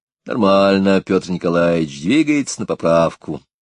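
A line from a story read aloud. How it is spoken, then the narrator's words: Plain. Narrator (Russian): ответил Станислав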